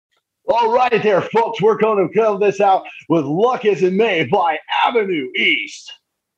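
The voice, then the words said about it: Cheesy morning zoo radio voice. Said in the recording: “your cheesiest radio intro ... the cheesiest morning zoo radio voice”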